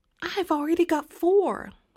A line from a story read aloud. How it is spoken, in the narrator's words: Fern yelled